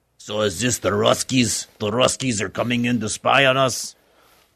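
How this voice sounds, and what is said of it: Put-on Russian or German accent. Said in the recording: “I don't know if that's a good German or Russian accent.”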